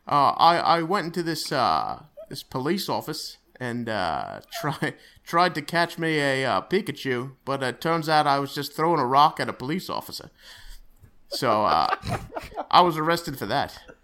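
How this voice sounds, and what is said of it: Bad put-on Australian accent. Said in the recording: “one bad accent”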